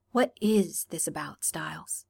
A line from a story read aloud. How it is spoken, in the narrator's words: He asked quietly